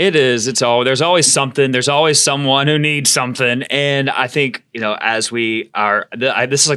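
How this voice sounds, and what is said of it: Usual voice. Nothing is said of it.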